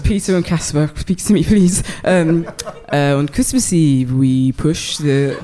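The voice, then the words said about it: Put-on Danish accent. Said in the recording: “Your best Danish accent ... Danish accent coming up”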